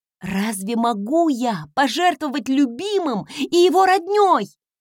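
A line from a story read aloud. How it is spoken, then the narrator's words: Grandiose exclamation, suppressed irritation. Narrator (Russian): Стараясь подавить раздражение, с большим пафосом воскликнула я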